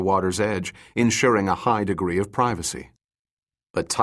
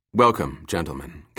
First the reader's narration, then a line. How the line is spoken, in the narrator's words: Kang said in a smooth voice